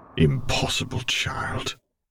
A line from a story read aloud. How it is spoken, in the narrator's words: Vader murmured